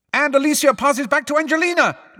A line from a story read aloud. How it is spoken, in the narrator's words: Lee shouted, Lee was trying to drown out the words of the song